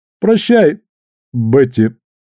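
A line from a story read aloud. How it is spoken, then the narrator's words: Halting broken voice. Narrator (Russian): прерывистым голосом продолжил Перри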